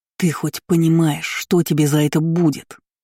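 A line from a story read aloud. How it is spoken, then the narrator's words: Growl. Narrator (Russian): прорычал он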